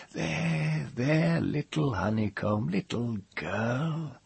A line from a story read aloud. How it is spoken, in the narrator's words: the husky murmur in the deep hollow of his chest